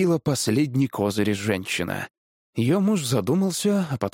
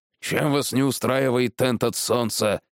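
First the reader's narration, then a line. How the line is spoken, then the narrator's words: Grumbling woodcutter. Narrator (Russian): проворчал дровосек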